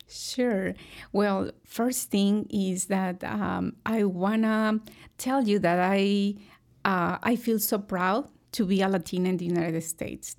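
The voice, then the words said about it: Slight foreign accent. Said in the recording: “you weren't born here. You can pick up a little bit of an accent”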